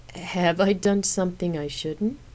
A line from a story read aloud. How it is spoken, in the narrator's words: asked with an uneasy laugh